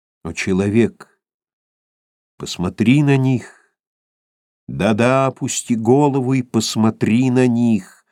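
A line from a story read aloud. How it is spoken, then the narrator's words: Ghostly exclamation. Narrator (Russian): воскликнул призрак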